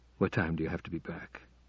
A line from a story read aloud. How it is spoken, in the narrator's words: he asked, almost in a whisper